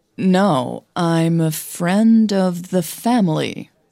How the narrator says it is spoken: Hannah said slowly

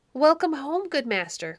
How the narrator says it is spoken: cried the shepherd

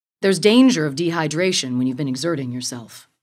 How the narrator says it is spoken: he said

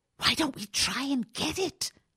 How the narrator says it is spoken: She whispered

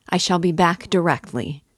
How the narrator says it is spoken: he shouted to the horror-stricken mother

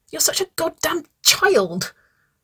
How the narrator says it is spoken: she spluttered

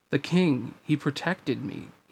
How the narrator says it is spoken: he murmured

